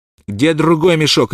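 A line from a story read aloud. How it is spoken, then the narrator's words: Barked. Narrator (Russian): рявкнул Смок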